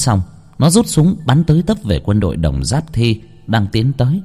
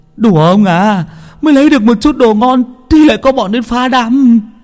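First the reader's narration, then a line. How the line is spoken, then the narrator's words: Shrieking. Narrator (Vietnamese): rú lên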